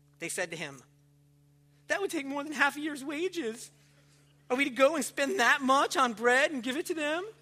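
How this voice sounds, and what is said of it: Whiny voice. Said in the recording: “Like the little whiny voice.”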